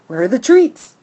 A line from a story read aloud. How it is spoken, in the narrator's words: He barks